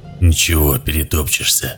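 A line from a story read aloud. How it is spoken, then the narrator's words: Hoarse reply. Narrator (Russian): осипшим голосом ответил телохранитель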